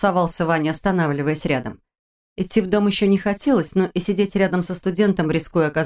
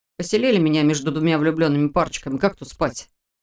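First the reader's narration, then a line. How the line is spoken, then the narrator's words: Snorting. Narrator (Russian): Ваня хмыкнул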